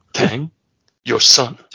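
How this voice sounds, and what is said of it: William Shatner impression. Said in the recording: “You can almost hear that said in a William Shatner voice.”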